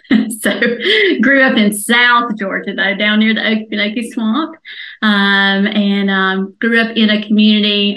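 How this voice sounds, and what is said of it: Southern American accent. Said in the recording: “I'm a Southern girl. You probably got that from the accent.”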